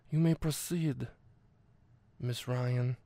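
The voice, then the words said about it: Imitates a film character's villainous voice. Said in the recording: “he's doing like a Brando impression ... I nailed that impression of Hudson McGill”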